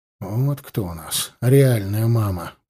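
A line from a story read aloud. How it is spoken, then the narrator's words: Muttered. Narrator (Russian): пробормотал я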